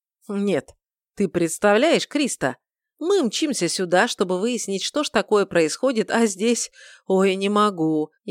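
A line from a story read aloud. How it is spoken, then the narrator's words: Laughing, forced out. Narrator (Russian): снова засмеялся, выдавив сквозь смех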